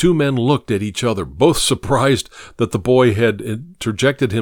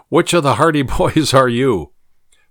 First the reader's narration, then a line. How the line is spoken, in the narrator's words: Sungum laughed and said